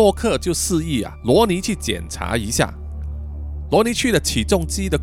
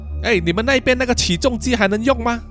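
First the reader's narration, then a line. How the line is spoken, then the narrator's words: Shouting. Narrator (Chinese): 文艺喊说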